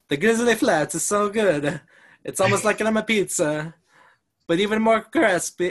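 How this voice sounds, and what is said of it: Put-on Italian accent. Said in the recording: “I can do an Italian accent ... Grizzly Flats in one sentence, Italian accent.”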